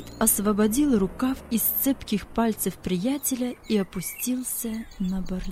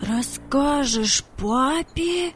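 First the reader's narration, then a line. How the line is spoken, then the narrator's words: Incredulous exclamation. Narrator (Russian): воскликнул Владик, не поверив своим ушам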